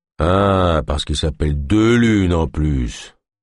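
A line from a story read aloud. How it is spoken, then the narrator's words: Grumbling. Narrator (French): grogna Dark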